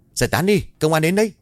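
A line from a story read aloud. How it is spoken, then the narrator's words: Hurried man shouting. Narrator (Vietnamese): một người đàn ông hối hả hét lớn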